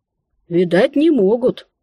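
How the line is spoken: Woman sighing. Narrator (Russian): вновь вздохнула женщина

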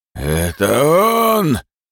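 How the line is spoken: Hoarse bass yell from crowd. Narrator (Russian): заорал кто-то в толпе хриплым басом

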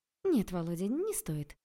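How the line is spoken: Gentle mother's voice. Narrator (Russian): ласково сказала мама

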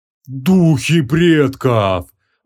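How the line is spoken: Breathless exclamation. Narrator (Russian): выдохнул Хабум

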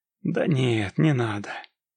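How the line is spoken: Lazy reply. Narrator (Russian): лениво ответил купец

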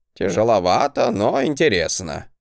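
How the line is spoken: Wry hmm. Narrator (Russian): хмыкнул Гринальв

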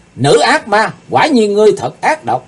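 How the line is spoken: Loud shout. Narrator (Vietnamese): Chàng hét to lên

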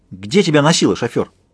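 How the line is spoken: Barked. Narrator (Russian): рявкнула Пинки Мадам

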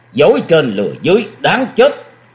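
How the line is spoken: Shouting. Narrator (Vietnamese): Tuyệt Thiên Ma Quân phất tay áo một cái miệng quát

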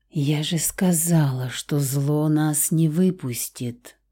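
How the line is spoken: Quiet whisper. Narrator (Russian): прошептала тихо Лаура

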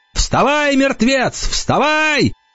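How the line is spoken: Shout. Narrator (Russian): Енах закричал

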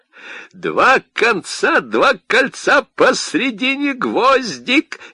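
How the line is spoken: Energetic chant, then laughter. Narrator (Russian): Энергичным ритмом считалки выговорил Котя и расхохотался

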